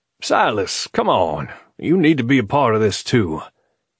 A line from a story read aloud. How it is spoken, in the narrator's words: he called out